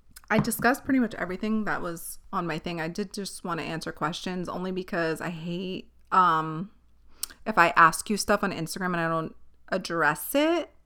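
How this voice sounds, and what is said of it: Voice giving out, sloppy speech. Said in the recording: “Do you hear I'm losing my voice and getting sloppy?”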